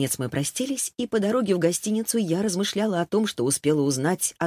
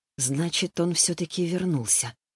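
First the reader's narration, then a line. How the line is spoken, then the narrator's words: Muttered. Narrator (Russian): пробормотала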